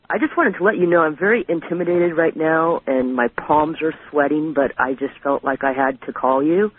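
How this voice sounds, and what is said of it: Low, quiet voice. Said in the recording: “my voice is kind of low, but I'm reclining right now”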